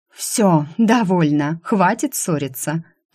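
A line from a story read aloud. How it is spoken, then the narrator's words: Moaning. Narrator (Russian): простонала я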